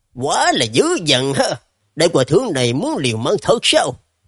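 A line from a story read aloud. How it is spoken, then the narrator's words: Calm, sinister, loud. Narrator (Vietnamese): Lãnh Diện Diêm La vẫn là giữ thái độ ung dung, khóe môi nở nụ cười nham hiểm, lớn tiếng hô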